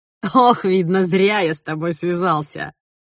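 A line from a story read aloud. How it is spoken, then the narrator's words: Young man laughing. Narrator (Russian): захохотал парень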